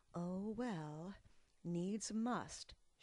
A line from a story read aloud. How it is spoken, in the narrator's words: she sighed